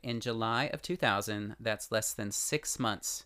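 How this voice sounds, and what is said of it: Usual voice. Nothing is said of it.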